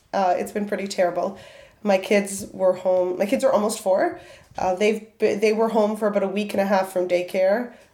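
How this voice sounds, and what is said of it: Hoarse voice. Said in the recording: “My voice is a little bit hoarse because I have had the cold of the season ... it's going to be quite a while before my normal voice is back.”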